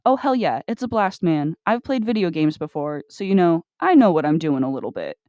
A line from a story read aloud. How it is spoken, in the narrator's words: with that manic edge to his voice arriving again, Richard exclaimed